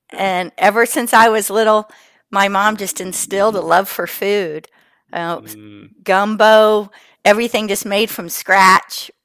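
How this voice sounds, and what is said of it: South Carolina Southern accent. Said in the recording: “I'm from South Carolina, in case you can't tell from my accent.”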